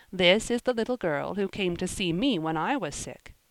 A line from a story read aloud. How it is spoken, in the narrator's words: he said kindly